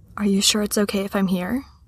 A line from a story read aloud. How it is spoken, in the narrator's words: Natasha said quietly